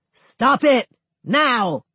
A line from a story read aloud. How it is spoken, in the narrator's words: Someone shouts